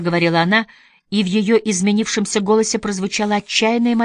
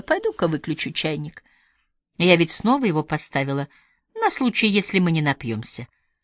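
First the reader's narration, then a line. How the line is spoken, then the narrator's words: Mumbling. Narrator (Russian): Сестра Хопкинс пробормотала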